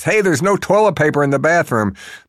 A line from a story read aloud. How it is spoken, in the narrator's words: Shirt backwards yells from the rear of the bus